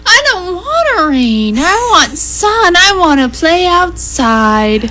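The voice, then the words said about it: Whiny voice like a small child. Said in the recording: “I just want to be whiny for just a minute. ... Can I do my best whine? ... Wonderful impersonation of your two-year-old.”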